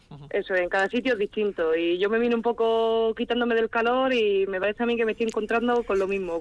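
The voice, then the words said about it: Andalusian Spanish accent from Cádiz. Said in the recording (Spanish): “por el acento yo creo que tú vienes de otros eh, lares de calor ... yo vengo de Cádiz”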